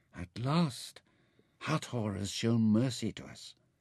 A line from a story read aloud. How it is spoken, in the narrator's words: Mintaka leant even closer to Nefer and murmured